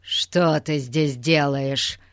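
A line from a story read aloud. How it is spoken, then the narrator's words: Growling. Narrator (Russian): зарычал он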